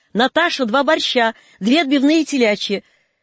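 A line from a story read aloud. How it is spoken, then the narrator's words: Resonant cheerful distant female shout. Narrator (Russian): звучный женский голос из глубины столовой бодро крикнул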